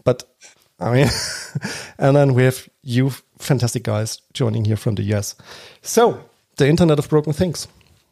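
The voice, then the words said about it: German accent. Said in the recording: “I'm sitting currently in Germany. So my accent is Germany.”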